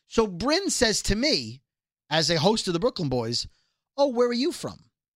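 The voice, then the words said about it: Brooklyn accent. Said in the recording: “my accent gives it away”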